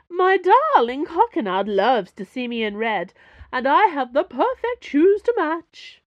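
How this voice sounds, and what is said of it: Shrill aristocratic soap-diva accent. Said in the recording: “shrieked, playing up an accent that tilted between new aristocrat and hollow soap diva”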